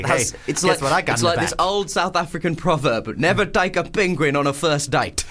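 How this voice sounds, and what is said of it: Good put-on South African accent. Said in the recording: “That's a good South African accent. ... It's a really hard accent.”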